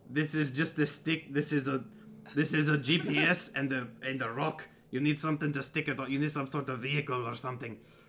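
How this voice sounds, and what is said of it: Character voice with put-on accent. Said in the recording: “Is my accent worse than usual? ... I haven't done this voice in a damn long time.”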